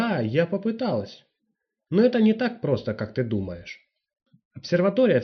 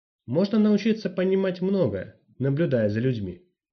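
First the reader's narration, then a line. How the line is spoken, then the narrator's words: Plain. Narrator (Russian): ответила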